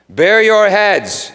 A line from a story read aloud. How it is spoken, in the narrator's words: yelled the head of the camp